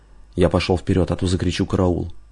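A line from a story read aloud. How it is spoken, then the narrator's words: Quick speech. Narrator (Russian): быстро проговорил Гаспарян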